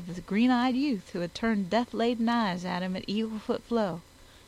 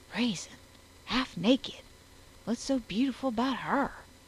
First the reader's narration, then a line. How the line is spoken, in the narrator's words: his whisper